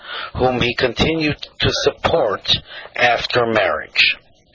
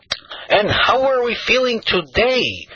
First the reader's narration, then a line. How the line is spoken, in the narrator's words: he cried out jovially